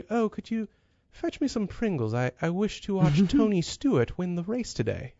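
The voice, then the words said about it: Put-on posh London accent. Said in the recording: “sounds, as they would say, posh. Especially the London accent.”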